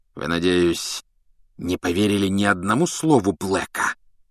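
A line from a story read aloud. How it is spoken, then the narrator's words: Hissing. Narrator (Russian): прошипел он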